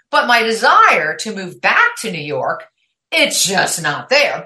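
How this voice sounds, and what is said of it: New York accent. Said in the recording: “I'm a New York girl. I mean, if you're listening to my podcast, you know the accent's there, right?”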